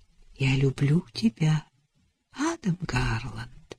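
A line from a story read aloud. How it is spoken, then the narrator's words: Tender whisper. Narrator (Russian): нежно прошептала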